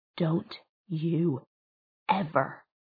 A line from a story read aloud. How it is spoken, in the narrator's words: he whispered, mouth a blanched line